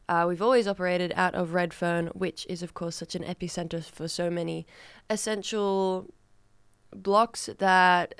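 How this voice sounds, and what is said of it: Australian accent. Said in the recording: “if you cannot tell from my accent and my overall disposition, I'm Australian”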